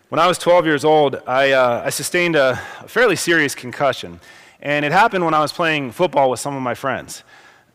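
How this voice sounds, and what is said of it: Hoarse, fading voice from cold. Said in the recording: “the little head cold that I had yesterday has moved down, and my voice seems to be going here this morning ... my voice is fading”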